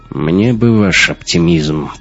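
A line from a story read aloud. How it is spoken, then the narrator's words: Grumbling. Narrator (Russian): проворчал Раттенхубер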